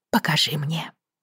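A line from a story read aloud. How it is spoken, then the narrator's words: Whispered. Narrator (Russian): прошептала Бриана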